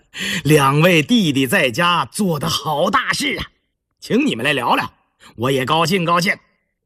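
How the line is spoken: Warm chuckling. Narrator (Chinese): 胤禛一见面就呵呵地笑着

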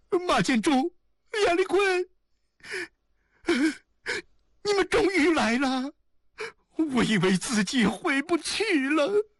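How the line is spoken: Weeping with relief. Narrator (Chinese): 王璐犹如从死亡边上回来的人，他哭了起来

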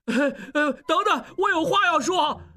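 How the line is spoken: Loud pleading. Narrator (Chinese): 小栓大声求饶

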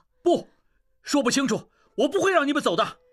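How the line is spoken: Loud. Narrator (Chinese): 应济大声说

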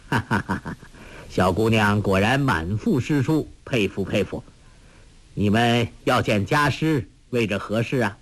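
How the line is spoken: Amused laughter. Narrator (Chinese): 那书生不禁哑然失笑，笑道

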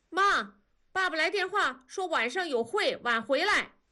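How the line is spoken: Shouting from outside. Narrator (Chinese): 外面大宝喊

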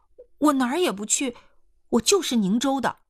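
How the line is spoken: Hurried. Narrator (Chinese): 易青娥急忙说

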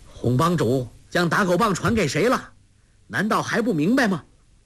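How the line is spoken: Loud shout. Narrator (Chinese): 郭靖高声叫道

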